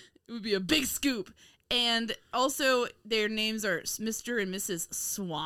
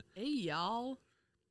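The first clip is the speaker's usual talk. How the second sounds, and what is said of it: Bad put-on southern accent. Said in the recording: “he's doing like a really bad southern accent”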